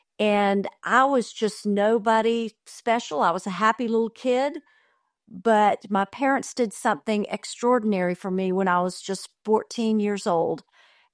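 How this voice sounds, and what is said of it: Southern US accent, North Florida. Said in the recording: “I'm a small town Southern girl, if you can't tell it from my voice, and from North Florida”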